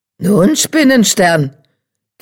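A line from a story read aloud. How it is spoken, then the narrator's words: Croak. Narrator (German): krächzte einer von ihnen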